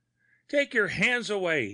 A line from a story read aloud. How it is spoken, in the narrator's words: he panted